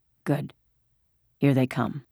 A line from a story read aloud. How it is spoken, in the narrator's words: he said in a low, relieved voice